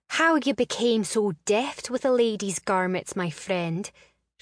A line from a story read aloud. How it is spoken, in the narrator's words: she gasped